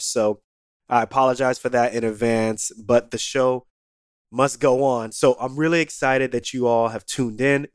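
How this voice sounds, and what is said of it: Raspy, hoarse voice. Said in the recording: “I'm going through a little bit of a sickness. I think I got a cold or some type of bug. So my voice is a little bit raspy. It's a little bit hoarse.”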